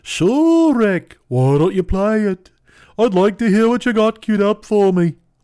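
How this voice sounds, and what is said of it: Attempted Liverpudlian accent, cartoonish. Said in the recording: “I don't know why Paul McCartney's a cartoon giraffe in my rendition ... Is that Liverpudlian enough? I don't know if I can't do a Liverpudlian accent.”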